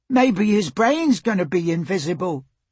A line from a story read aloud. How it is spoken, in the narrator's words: shouted another boy